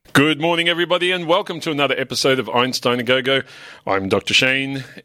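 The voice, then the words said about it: Voice slightly off, unwell. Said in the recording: “my voice is a little bit off in my post-COVID state. I probably sound a little bit different... I'll try not to cough”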